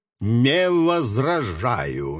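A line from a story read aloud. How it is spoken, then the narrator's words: Muttered through teeth. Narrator (Russian): процедил ее представитель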